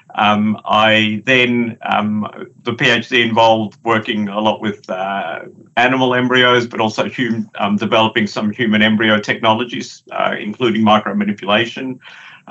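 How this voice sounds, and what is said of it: Australian accent. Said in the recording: “in Australia, as you can tell by the accent”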